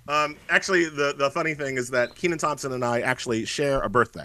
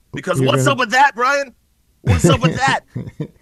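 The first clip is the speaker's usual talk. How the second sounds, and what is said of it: Imitates another person's voice. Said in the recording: “my Kenan Thompson impression”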